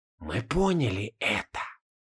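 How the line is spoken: Old men whispering. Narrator (Russian): прошептали старцы

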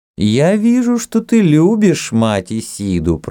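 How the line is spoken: Loud. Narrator (Russian): проговорила жрица громко

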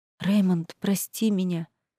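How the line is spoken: Desperate whisper. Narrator (Russian): прошептала я в отчаянии

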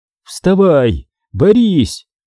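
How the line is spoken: Shout. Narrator (Russian): крикнул я Даниэлю

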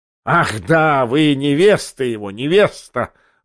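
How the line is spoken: Furious, frenzied laughter. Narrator (Russian): злобно и неистово захохотал Бьоринг

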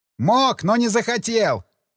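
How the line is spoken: Shouting into ear. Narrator (Russian): прокричал я на ухо радисту

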